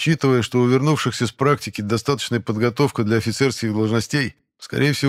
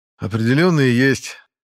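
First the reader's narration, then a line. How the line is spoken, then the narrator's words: Sigh. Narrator (Russian): вздохнул я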